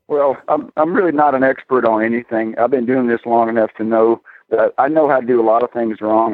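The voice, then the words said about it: Southern US accent. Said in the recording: “I feel like there's a southern accent in there ... You can't get rid of Texas”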